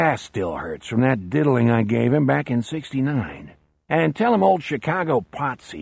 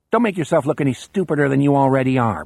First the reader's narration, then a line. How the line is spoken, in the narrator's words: Brown snaps